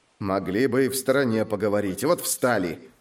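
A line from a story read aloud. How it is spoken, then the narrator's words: Grumbling passersby. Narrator (Russian): ворчали прохожие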